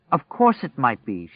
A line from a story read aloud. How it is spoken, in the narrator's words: she said impatiently and a trifle wildly